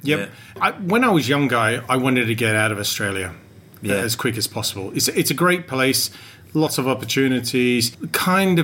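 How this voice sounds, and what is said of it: English-sounding accent, not Australian. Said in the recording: “I don't have an Australian accent ... That's where you're getting your accent ... I picked it up from that time. And also both my parents were English.”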